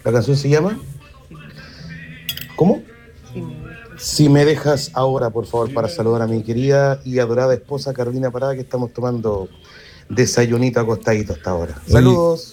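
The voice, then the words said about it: Deep announcer-like radio voice. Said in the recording (Spanish): “tiene voz de locutor este hombre, ¿eh? Podría hacer locución”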